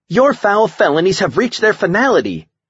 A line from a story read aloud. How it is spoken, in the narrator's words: Amanda shouted